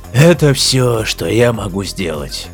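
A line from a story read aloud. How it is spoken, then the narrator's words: Heavy sigh. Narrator (Russian): снова тяжело вздохнул Лафин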